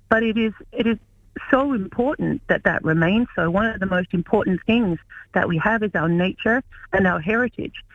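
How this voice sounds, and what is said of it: Australian accent. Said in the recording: “you can hear from my accent. I'm originally from Australia.”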